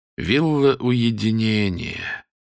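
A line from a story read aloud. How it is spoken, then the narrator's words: Sighing. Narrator (Russian): вздохнул он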